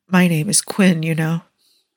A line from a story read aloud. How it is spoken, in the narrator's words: Just before she drifts into sleep, she somehow musters the energy to murmur